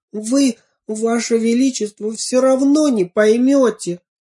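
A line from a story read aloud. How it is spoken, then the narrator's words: Sobbing. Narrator (Russian): всхлипнула я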